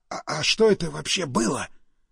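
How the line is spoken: Stunned whisper. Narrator (Russian): прошептал ошарашенный Стас

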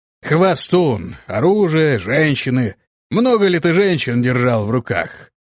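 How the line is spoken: Drunken questioning voice. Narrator (Russian): пьяным голосом спросил он

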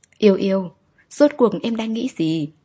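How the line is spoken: Sighing. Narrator (Vietnamese): thở dài

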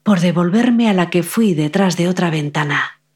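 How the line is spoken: Old woman's sigh. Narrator (Spanish): volvió a suspirar la anciana

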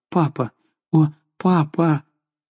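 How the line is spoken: Confused babbling. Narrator (Russian): Жанна растерянно лепетала

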